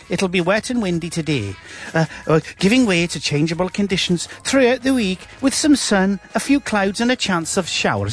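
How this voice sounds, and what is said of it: Put-on Scottish accent mixed with Bristol. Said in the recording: “That was Scottish mixed with a bit of Bristol.”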